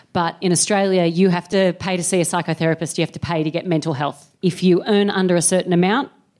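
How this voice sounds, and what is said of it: Non-local accent. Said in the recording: “This is not a local accent, obviously.”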